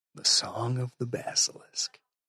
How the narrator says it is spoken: breathed Max

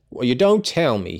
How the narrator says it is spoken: he exclaimed interestedly

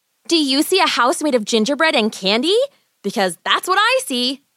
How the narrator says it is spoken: Gretel replied excitedly

